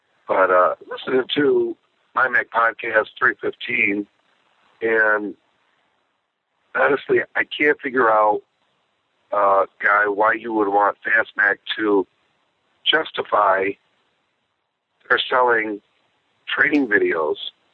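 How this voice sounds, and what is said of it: Hoarse, congested voice from a cold. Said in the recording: “Sorry about my voice. I've got a really bad cold right now.”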